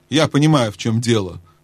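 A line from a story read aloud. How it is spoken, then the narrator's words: Dry reply. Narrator (Russian): сухо ответил Трумпкин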